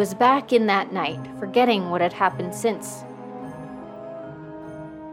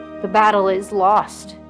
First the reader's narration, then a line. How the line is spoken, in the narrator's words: said sullenly